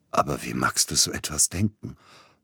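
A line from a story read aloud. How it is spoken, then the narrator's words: Hoarse. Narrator (German): brachte er heiser hervor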